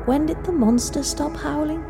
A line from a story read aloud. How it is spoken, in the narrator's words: she said softly, as if scared she would be heard